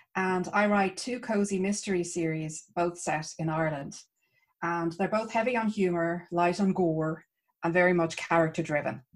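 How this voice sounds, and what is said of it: Irish accent. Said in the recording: “I am Irish, as you might hear from my accent”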